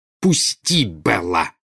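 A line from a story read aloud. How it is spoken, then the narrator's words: Growled. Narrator (Russian): прорычала Нарцисса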